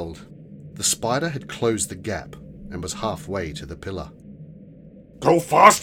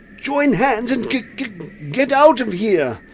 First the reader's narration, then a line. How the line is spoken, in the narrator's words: Quilby yelled as the noise from the wind grew